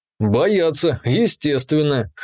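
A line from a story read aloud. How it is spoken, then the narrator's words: Snorting. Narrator (Russian): хмыкнул я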